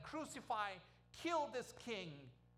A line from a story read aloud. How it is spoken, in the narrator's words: shout